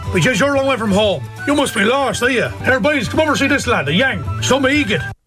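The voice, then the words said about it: Put-on Mullingar Irish accent. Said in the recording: “his range of voices from all over Ireland, including that very distinct Mullingar accent”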